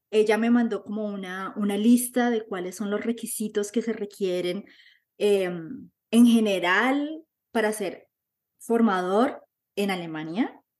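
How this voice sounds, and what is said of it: Caribbean Colombian Spanish accent. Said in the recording (Spanish): “yo hablo con acento, con tumbado, con cumbiambero”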